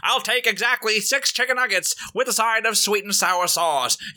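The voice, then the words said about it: Put-on transatlantic accent. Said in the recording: “transatlantic accent ... I just about did the address in Transatlantic Voice”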